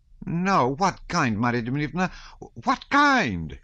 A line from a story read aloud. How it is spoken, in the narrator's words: she almost screamed